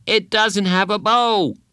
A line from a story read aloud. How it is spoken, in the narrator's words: Bradley shouted